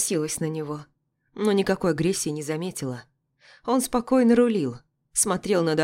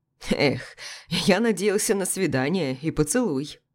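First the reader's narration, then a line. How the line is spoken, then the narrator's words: Chuckling. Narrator (Russian): хохотнул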